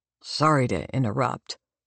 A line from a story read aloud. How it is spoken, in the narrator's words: he says